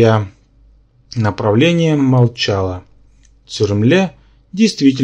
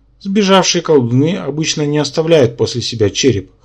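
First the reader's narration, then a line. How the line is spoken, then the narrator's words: Snorting. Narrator (Russian): хмыкнул Рабан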